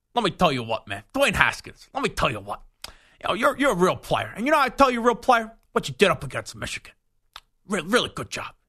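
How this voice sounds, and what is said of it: Jon Gruden impression. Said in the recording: “Imagine Gruden doing the quarterback camp with these QBs... the John Dorsey Gruden impersonation... Like, let me tell you what, and then you put a wad of gum in your mouth”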